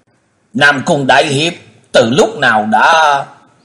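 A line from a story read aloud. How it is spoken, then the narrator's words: Stammering cry. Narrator (Vietnamese): Y cứ lắp bắp la lên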